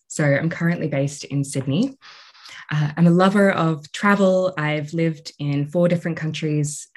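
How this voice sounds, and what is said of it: Australian accent. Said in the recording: “I'm Australian. You might be able to hear that in my voice.”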